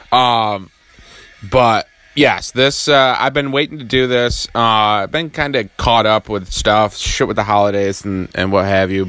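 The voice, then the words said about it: Hoarse, just-woke-up voice. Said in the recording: “I have just recently woken up. My voice may seem a little hoarse”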